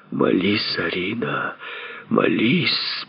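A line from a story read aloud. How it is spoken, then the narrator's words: Moaning. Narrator (Russian): простонал он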